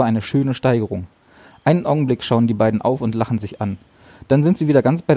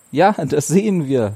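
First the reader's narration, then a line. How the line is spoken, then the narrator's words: Laughing. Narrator (German): lacht Ursel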